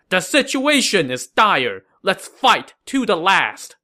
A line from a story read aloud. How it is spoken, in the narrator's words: Wang Guan then shouted to his men